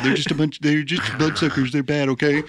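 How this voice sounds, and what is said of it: Poor imitation of another person's voice. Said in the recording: “practicing like, a Trump voice ... my impression is so bad”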